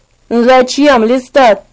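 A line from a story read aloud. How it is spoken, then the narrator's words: Weary, sad voice. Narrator (Russian): спросил измученным, грустным голосом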